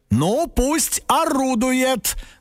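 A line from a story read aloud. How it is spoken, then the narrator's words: Loud, to himself. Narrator (Russian): громко сказал папа, как будто бы сам себе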